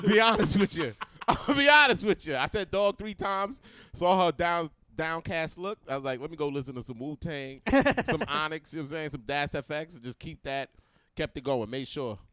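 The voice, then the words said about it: New York accent. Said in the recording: “I grew up in New York ... Queens ... But I kept the accent”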